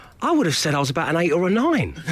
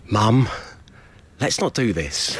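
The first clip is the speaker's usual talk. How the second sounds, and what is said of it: Exasperated voice. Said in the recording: “in an exasperated voice”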